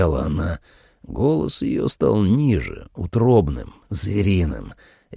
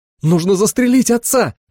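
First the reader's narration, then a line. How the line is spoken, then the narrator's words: Shouted. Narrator (Russian): крикнула она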